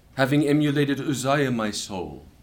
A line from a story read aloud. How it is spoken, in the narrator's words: says